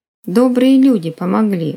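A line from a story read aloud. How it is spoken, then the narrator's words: Offended grumble. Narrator (Russian): буркнула обиженно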